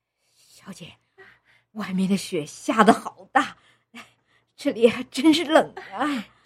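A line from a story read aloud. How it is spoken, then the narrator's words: Cold, breathless speech. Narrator (Chinese): 陈嫂冻得脸色苍白，口中直冒热气，气喘吁吁地说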